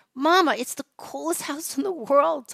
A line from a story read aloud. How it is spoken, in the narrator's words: Tava squealed